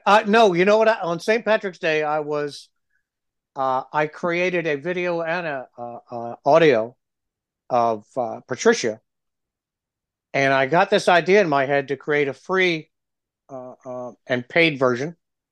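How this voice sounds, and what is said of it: Stuffy, froggy voice. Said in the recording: “That cough is still bugging me... the meds make me stuffy and froggy. That's my voice is froggy.”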